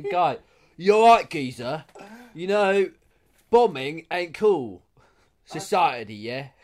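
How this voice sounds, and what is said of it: Unconvincing Danny Dyer impression. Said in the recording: “that's impeccable... that sounded nothing like Danny Dyer... I've never heard a more non-Danny Dyer accent in my life.”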